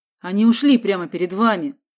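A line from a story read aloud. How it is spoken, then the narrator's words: Offended. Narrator (Russian): сказал Борис обиженно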